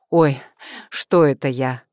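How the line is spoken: Laughing. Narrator (Russian): засмеялась

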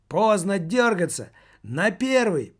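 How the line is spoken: Shouting. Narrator (Russian): прокричал Маркетинг

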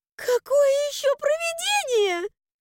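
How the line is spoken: Full-force shriek. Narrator (Russian): Взвизгнула я со всей силы

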